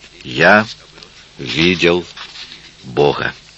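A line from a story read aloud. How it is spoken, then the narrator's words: Spoke slowly. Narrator (Russian): Иисус, медленно роняя слова, промолвил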